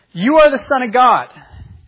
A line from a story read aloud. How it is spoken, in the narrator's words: the unclean spirits ... cried